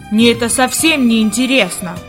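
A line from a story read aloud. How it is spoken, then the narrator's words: Grumbling. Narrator (Russian): пробурчал он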